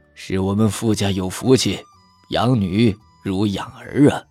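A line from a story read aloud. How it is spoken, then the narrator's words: Admiring praise. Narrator (Chinese): 他连连赞叹，最后朝傅老夫人道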